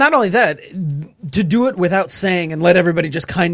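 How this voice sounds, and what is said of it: Usual voice. Nothing is said of it.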